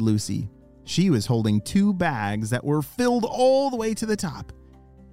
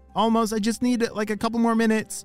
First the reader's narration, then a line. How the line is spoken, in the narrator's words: shouted Ollie